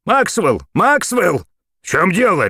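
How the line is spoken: Barked reply. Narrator (Russian): рявкнул в ответ Максвелл

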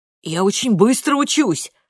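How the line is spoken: Hurried. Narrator (Russian): торопливо добавляет Паудль

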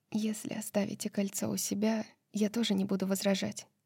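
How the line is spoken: Quiet addition. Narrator (Russian): тихо добавила она

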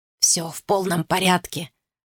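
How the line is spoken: Whisper. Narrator (Russian): шепнул ему Гарри Фриск

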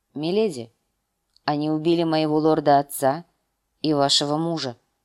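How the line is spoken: Grim. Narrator (Russian): мрачно сказал он

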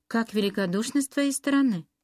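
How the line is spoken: Exclamation. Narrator (Russian): воскликнула мисс Элеонора

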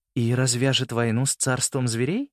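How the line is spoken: Gentle question. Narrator (Russian): мягко спросила мама

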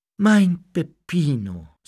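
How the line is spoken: Sighing. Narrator (German): seufzte

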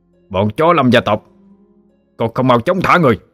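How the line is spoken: Sharp shout. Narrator (Vietnamese): Người bên cạnh lập tức quát lên

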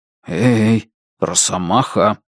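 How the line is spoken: Whispered into ear. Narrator (Russian): прошептал я сыну в ухо

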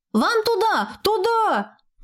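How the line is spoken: Shout. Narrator (Russian): крикнул он

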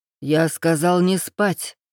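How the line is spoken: Through gritted teeth. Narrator (Russian): процедил нелюдь сквозь зубы

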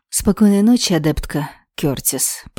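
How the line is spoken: Usual cold tone. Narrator (Russian): пожелал Моррис привычным холодным тоном

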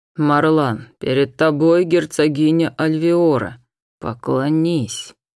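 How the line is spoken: Hissed command. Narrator (Russian): Ашир фактически прошипел

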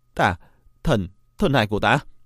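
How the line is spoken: Anguished cry. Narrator (Vietnamese): Thiên Nghiệt kêu lên thảm thiết

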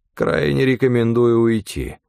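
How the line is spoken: Grim. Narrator (Russian): мрачно сказал Стефан

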